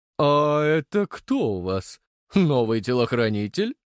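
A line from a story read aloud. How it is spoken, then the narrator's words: Mocking. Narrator (Russian): Его голос прозвучал насмешливо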